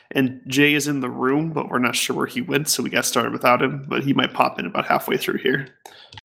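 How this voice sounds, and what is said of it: Rough voice from a cold. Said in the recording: “his not-so-wonderful voice ... It's terrible ... I'm recovering from a bit of a cold here, so my voice is terrible”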